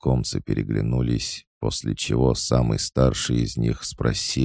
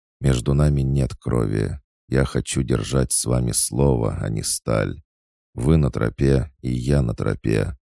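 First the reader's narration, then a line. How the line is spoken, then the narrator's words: Calm. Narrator (Russian): Хаджар спокойно произнес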